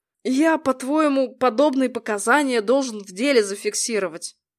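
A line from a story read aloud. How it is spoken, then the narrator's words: Grumbling. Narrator (Russian): проворчал комиссар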